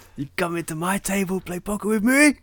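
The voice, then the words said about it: Bad put-on Chinese accent. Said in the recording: “bad impression of a Chinese accent ... he sounded like Scarface ... Like Colombian”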